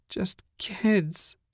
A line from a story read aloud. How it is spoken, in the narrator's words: whined